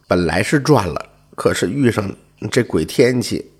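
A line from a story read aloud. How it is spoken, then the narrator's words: Sighing. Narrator (Chinese): 秦叔叹了口气说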